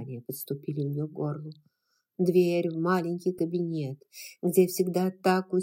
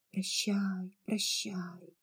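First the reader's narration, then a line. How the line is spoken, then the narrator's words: Imagined whispering. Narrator (Russian): Все с детства знакомые, любимые вещи, казалось, шептали ей в уши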